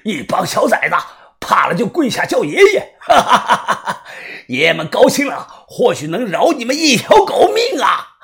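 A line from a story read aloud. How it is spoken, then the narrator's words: Loud laughing. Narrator (Chinese): 一名福建人大笑着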